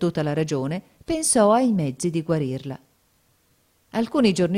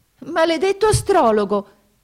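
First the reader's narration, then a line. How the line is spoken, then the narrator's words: Princess exclaiming. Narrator (Italian): esclamò la principessa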